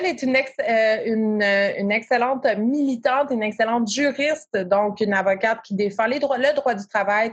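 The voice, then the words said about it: Québécois French accent. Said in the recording (French): “mon petit accent québécois”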